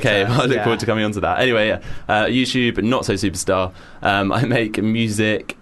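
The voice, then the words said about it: Congested voice, deeper and lower. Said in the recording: “my sexy I've got a cold voice ... I do have a cold today, and I think it's made me a bit deeper and lower than usual”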